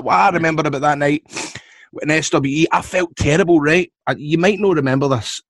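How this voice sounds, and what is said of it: Scottish accent. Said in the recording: “I'll need to speak slower for you because I know the Scottish accent can throw you a wee bit”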